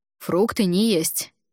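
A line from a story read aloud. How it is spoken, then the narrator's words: Stern. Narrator (Russian): строго произнес Альгидрас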